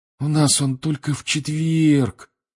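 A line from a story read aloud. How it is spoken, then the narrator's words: Disappointed sigh. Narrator (Russian): разочарованно вздохнул он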